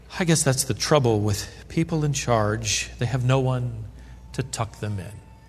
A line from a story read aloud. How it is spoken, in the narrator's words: his sister sighed and said